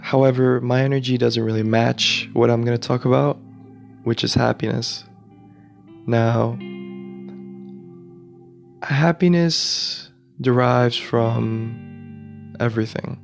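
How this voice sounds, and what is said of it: Groggy, tired, sick-sounding voice. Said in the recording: “I'm sorry if my voice sounds a little groggy. I'm a little sick ... I'm a little tired”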